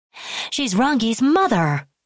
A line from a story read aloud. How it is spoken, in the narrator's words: Kiyoshi cried